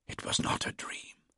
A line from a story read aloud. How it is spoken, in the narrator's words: I whispered